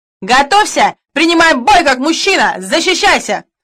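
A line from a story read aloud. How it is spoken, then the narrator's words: Shout. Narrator (Russian): крикнул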